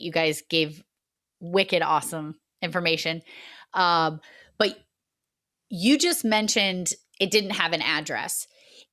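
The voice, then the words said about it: Massachusetts accent. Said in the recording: “my Massachusetts accent just launched right out of my mouth”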